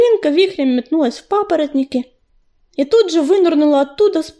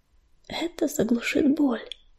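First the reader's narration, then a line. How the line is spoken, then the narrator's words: Gentle whisper. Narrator (Russian): ласково прошептала она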